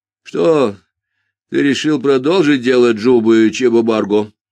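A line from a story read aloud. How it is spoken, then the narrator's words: Tired question. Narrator (Russian): устало спросил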